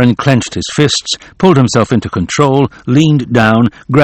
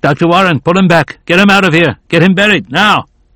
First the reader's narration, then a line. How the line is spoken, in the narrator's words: Prescott shouted